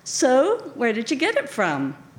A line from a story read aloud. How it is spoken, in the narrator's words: His tone was friendly, casual